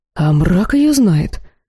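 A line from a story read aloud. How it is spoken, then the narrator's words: Confused reply. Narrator (Russian): растерянно ответил Дахраток Хар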